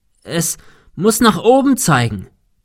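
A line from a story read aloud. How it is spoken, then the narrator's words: Shouting into wind. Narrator (German): rief Thomas dem Wind entgegen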